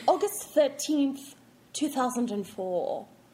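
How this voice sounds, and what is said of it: Attempted British accent. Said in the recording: “I wish I could do a British accent.”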